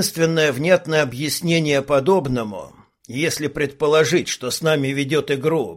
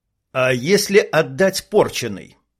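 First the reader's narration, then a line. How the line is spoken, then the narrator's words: Plain. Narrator (Russian): спросил Илья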